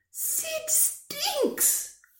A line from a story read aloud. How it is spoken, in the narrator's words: cried Mum, putting a peg on her nose